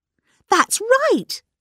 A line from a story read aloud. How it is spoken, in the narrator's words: cried Dora Bunner